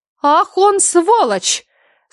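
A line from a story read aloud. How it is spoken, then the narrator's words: Exclamation. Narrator (Russian): воскликнула Лаура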